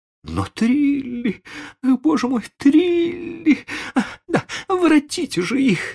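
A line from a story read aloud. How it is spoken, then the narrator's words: Nervous lady's moan. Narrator (Russian): застонала нервная дама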